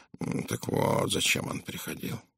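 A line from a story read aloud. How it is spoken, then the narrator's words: Grumbling. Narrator (Russian): проворчал Пуаро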